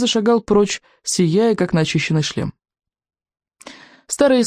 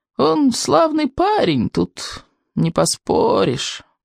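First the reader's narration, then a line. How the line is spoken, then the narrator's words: Creaky old man's voice. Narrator (Russian): проскрипел старый сморчок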